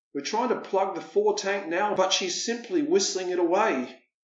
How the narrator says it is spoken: her captain wails

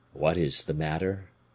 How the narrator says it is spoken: asked his father tenderly

